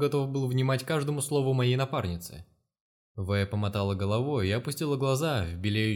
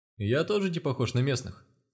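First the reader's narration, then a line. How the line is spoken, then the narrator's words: Chuckling. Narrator (Russian): хохотнул Бон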